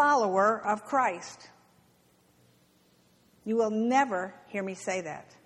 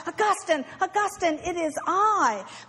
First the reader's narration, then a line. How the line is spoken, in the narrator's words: And surprised, the woman cried out